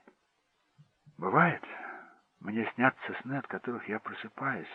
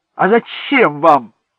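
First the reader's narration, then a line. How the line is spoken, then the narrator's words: Shouted. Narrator (Russian): закричал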